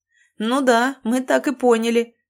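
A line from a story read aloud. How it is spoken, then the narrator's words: Laughing. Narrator (Russian): рассмеялся Леонардо Вудс, так похожий на льва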